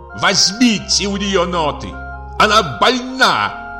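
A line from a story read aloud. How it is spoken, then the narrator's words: Shout. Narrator (Russian): крикнул наконец он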